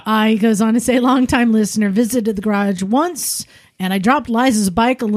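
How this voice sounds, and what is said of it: Usual voice. Nothing is said of it.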